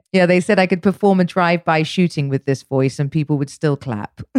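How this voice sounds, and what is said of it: London English accent. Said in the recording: “your London accent”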